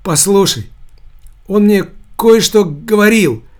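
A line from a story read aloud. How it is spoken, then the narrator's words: Weak voice. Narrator (Russian): произнес Костырьков слабым голосом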